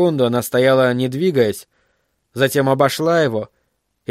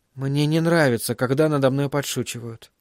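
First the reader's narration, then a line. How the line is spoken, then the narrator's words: Quiet. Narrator (Russian): тихо произнесла Кэрри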